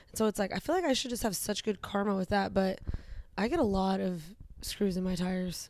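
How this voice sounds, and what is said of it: Sick, tired-sounding voice. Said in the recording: “my voice sounds this way. ... Yeah, it sounds sick. ... You sound tired.”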